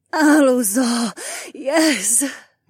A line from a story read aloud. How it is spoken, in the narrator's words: Nora moaned